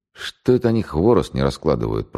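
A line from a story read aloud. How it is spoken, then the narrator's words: Whispered. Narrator (Russian): прошептал Головастый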